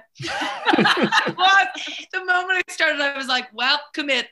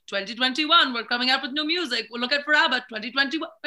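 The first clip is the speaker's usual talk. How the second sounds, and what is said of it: Put-on Swedish accent. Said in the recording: “that your Swedish accent? ... You did sound a bit like Swedish Chef from The Muppets.”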